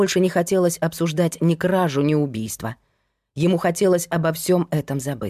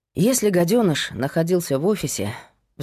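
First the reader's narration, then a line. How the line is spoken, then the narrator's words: Sighing. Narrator (Russian): вздохнула Майя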